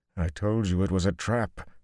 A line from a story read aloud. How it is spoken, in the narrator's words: Luz Theron groaned